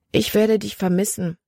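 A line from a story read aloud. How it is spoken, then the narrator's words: Gentle. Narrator (German): sagte sanft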